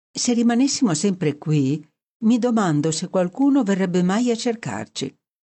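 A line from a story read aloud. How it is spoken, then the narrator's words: Sudden dreamy tone. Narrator (Italian): Jennings a un tratto disse in tono sognante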